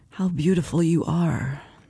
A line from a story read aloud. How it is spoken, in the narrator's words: he murmured, his voice a seductive croon